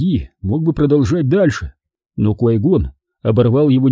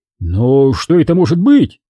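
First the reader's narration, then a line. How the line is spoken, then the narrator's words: Exclaimed. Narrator (Russian): воскликнул Диди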